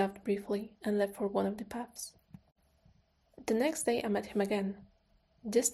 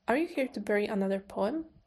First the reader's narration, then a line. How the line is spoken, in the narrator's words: I asked